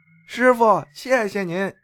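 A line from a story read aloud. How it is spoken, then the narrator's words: Calling out from behind. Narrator (Chinese): 女人又在背后喊了一句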